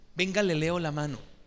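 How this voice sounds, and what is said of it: Put-on Sevillian Spanish accent. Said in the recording (Spanish): “pero con el acento sevillano”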